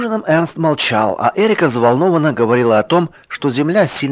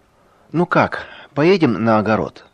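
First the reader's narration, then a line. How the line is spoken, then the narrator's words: Quiet question. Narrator (Russian): тихо спросила под конец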